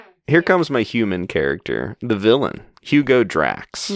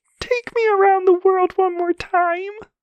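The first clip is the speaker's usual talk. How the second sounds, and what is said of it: Miss Piggy impression, rounded voice. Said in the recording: “Does that sound like Miss Piggy? ... there's more of a rounded, right? ... my Miss Piggy impression”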